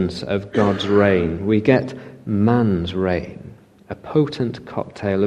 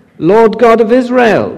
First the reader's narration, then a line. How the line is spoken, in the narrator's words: cried